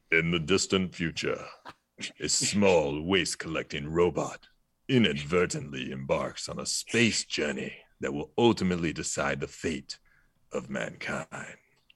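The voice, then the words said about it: Dramatic movie-trailer voiceover voice. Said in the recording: “do my voice, my movie voice ... You've got a voiceover career ahead of you ... my what if watcher voice”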